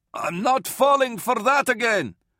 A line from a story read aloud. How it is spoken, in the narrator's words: Varl yelled from behind the hatch